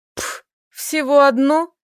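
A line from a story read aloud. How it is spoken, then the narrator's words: Scoffing woman. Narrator (Russian): фыркнула Доменика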